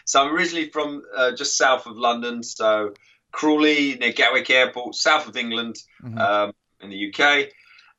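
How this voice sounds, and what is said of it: English accent from southern England. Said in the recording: “with my accent, sometimes I think, people don't understand me ... some people don't understand my accent sometimes. And I'm not Australian.”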